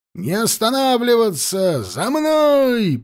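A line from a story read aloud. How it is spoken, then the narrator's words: Shouted command. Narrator (Russian): прокричал команду Кулебякин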